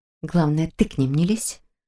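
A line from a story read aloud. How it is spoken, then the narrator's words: Quiet reply. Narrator (Russian): так же тихо ответила она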